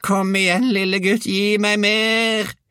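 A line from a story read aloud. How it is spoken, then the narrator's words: Shrieked. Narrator (Norwegian): hylte hun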